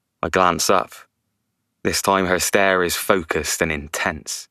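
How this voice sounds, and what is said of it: Usual voice. Nothing is said of it.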